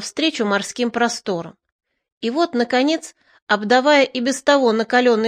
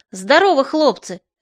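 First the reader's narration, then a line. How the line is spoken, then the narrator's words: Shouted. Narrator (Russian): выкрикнул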